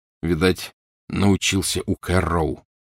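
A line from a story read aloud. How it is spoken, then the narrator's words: Grim. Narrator (Russian): мрачно сказал Гарри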